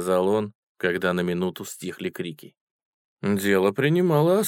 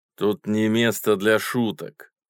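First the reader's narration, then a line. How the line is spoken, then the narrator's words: Stern. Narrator (Russian): строго сказал человек в боцманской шапке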